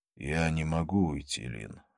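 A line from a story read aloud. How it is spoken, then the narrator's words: Sighing. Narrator (Russian): вздохнул он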